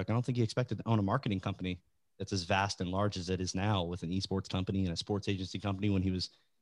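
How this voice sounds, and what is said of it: Smooth radio-style voice. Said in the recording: “you got a great radio voice too... incredible radio”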